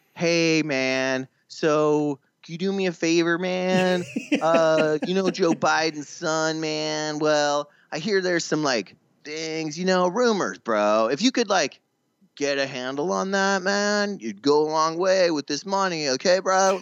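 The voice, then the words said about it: Imitates another person's voice. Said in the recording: “great Donald Trump impression”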